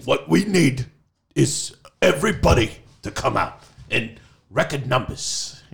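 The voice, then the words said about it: Impression of Bernie Sanders' voice. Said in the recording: “he's with his weird voice. I'm working on that. ... It's actually really good.”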